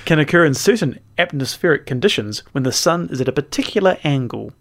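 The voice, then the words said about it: Put-on accent. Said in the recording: “I'm doing an accent now.”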